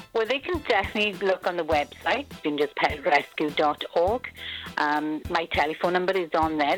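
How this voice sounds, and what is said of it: Welsh accent. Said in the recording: “I got to ask your accent. ... I'm from Wales in the UK.”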